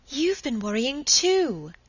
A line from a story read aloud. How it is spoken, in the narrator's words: exclaimed Margaret, getting more and more excited